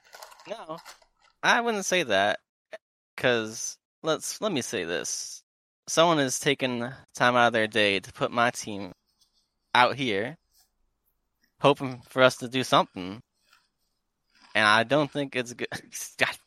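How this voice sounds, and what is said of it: Put-on cowboy accent. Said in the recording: “This fucking accent has infected me. I need to stop. ... you devolve into cowboy ... through that accent”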